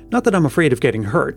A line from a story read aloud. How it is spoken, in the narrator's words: Helen added hastily, realizing the suspicion of cowardice that might rest against her